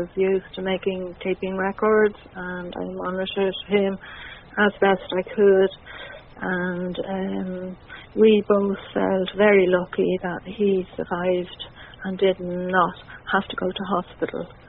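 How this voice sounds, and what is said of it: Irish accent. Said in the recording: “It's obvious from your accent, as is mine, that you are Irish”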